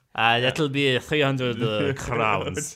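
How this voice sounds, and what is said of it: Put-on Italian accent. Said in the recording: “This is my Italian accent, clearly.”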